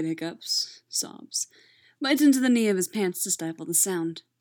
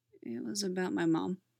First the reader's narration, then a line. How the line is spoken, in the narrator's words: quietly admitting